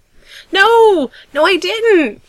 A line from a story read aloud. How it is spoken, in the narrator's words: Gerard exclaims